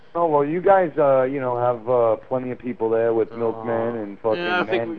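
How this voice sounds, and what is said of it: New York accent. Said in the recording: “This is his horrible accent. He's from New York.”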